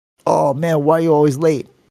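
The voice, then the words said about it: Poor put-on Jamaican accent. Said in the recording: “That was a bad Jamaican accent.”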